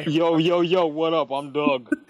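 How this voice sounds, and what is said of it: Imitates another person's voice. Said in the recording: “do a Doug voice ... His is better. That's Doug.”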